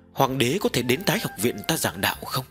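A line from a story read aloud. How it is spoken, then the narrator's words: Tentative probing tone. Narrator (Vietnamese): Tần Mục khẽ nhúc nhích trong lòng, thử dò xét nói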